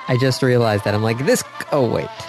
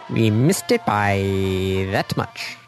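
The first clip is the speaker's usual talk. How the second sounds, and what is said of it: Imitates a TV character, slightly nasal. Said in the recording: “to do a Get Smart impression ... I didn't do enough of the nasally part of that.”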